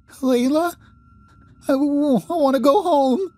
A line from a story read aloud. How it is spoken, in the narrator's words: she whimpers